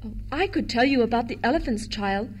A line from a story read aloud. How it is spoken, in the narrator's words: Jane murmured shyly to the boy